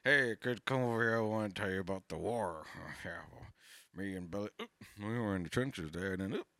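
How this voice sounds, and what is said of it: Old uncle character voice. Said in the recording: “I sound like an uncle. I sound like everyone's worst uncle.”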